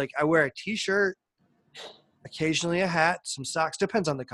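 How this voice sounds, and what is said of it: Usual voice. Nothing is said of it.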